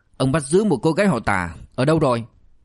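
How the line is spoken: Grim shouting policeman. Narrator (Vietnamese): cảnh sát mặt tối đen quát

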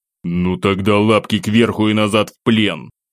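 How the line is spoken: Growl. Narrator (Russian): Рыкнул я

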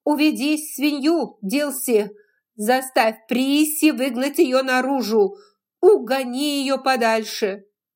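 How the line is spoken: Shouted from window. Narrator (Russian): Скарлетт высунулась из окна и крикнула

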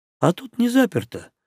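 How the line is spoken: Sad wry orc. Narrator (Russian): грустно усмехнулся орк

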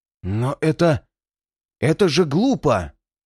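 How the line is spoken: Disconcerted exclamation. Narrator (Russian): воскликнул обескураженный Фортом

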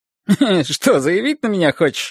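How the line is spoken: Laughing. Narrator (Russian): рассмеялся Борис

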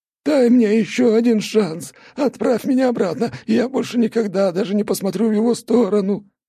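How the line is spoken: Sobbing plea. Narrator (Russian): просил он, содрогаясь в рыданиях

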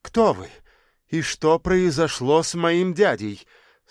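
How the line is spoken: Subtly menacing, through teeth. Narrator (Russian): С едва уловимой угрозой в голосе процедил Тимурчик

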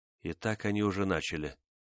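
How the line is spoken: Calm speech. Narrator (Russian): спокойно проговорила Онега

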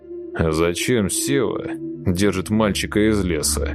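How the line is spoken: Relaxed deep male question. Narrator (Russian): мужской бас непринужденным голосом задал вопрос

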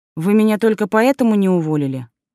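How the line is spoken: Irritated question. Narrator (Russian): раздраженно спросила я

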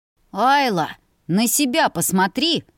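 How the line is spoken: Suspiciously sweet growl. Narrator (Russian): подозрительно мило прорычал брат

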